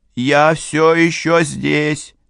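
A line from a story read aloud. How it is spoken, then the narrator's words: Shouted twice. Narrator (Russian): Дважды с перерывом он крикнул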